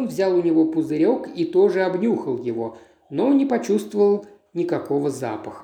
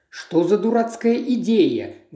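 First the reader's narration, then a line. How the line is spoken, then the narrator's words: Exclaiming. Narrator (Russian): воскликнул он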